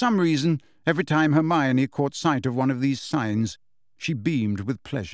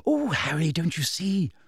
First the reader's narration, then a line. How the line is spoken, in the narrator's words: Hermione breathed